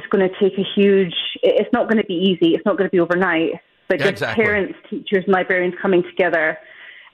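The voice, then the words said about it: Scottish accent. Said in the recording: “thanks for the delightful accent ... from Scotland”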